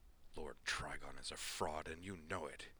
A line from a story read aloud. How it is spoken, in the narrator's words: Frey hissed